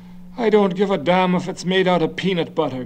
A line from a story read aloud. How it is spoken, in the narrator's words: Garvey said irritably